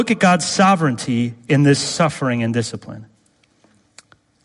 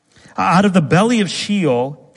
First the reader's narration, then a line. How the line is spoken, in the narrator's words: he cried